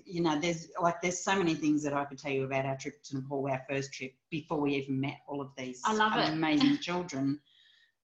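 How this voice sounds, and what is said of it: Australian accent. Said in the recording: “He asked where my accent was from when I told him Australia.”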